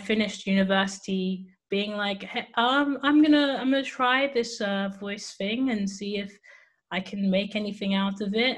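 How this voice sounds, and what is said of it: English accent. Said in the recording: “your accent doesn't sound like it's from around these parts ... I am from England, United Kingdom”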